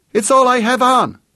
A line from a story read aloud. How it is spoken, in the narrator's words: Vicky shrieked back